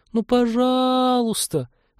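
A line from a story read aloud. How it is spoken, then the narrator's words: Pleading. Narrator (Russian): взмолилась лаборантка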